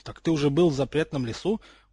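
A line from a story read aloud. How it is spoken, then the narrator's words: Astonished exclamation. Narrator (Russian): воскликнул крыс, изумленно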